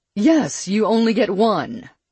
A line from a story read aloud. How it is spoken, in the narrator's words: Perry snapped